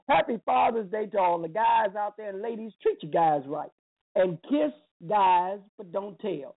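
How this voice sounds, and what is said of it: Hoarse voice. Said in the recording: “man, I'm hoarse”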